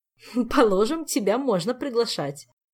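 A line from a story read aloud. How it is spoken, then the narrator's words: Laughing lady. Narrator (Russian): засмеялась дама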